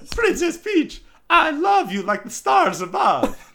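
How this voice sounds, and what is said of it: Stereotypical Italian cartoon character accent. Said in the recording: “That was like a good stereotypical Italian accent. It works. ... Doesn't have a stereotypical Italian accent. He has a Mario accent. It's very specific.”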